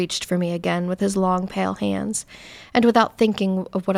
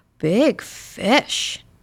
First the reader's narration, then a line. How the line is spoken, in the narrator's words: the man in the black suit cried in a guttural, greedy voice